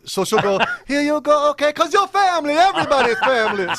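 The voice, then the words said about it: Exaggerated Italian accent. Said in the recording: “some weird Italian accent”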